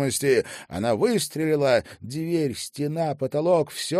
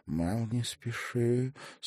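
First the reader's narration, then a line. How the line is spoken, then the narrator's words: Weak warning voice. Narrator (Russian): слабым голосом предостерегла Аста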